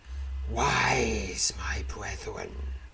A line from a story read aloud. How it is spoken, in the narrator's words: the creature hisses